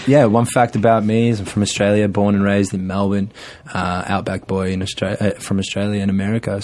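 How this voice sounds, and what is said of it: Australian accent. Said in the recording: “if you can't tell by my accent, I'm not American. I'm from Australia.”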